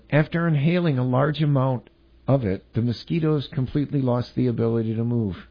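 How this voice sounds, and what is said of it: Creepy reading voice. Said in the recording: “stop reading it in that creepy voice ... I gotta do the creepy voice”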